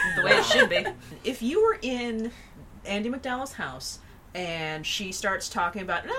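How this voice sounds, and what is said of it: Usual voice. Nothing is said of it.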